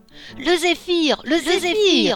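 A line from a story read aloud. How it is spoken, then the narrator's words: Group howling. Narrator (French): hurlèrent les floches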